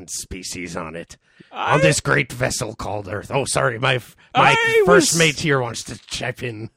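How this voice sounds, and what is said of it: Pirate character voice. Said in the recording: “doing the pirate voice”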